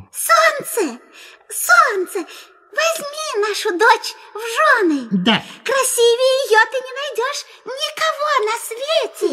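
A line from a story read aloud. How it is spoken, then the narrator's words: Gentle mouse squeak. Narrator (Russian): мышь-мать пропищала нежным голоском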